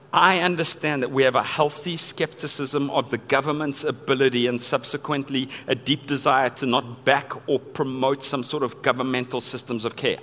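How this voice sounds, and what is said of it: Non-local accent. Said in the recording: “you know from the accent, I'm not from around here”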